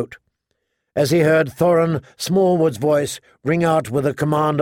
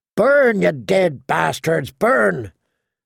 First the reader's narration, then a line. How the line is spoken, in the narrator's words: Dywin sang out, cackling